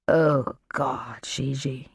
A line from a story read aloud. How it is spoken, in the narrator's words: he murmured, the syllables barely audible